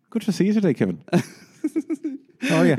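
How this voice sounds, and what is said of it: Put-on Irish Dublin accent. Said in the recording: “I'm going to answer you back in an accent ... That was your Irish accent, right? ... your Dublin accent”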